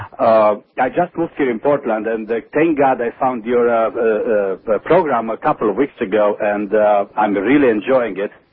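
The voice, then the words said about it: Pleasant non-native English accent. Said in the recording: “probably my English is not very good ... your accent is very pleasant”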